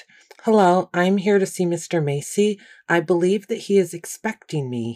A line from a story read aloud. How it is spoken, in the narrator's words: hollered